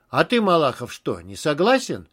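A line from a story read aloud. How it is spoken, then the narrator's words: Stern question. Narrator (Russian): строго спросил Степанов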